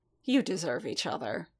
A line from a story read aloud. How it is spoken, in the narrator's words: the Cardassian muttered at last with a scoff